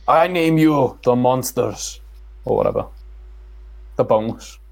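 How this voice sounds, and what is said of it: Scottish-accented impression of an actor. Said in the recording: “Give us your best Capaldi ... My best Capaldi”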